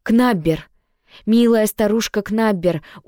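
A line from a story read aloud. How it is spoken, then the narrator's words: Bristling growl. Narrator (Russian): учуяв нежить, рычала, вздыбив шерсть на загривке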